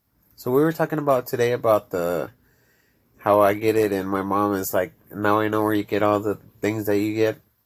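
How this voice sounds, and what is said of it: Mexican accent. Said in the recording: “I'm Mexican. I have an accent. But I have a Mexican accent.”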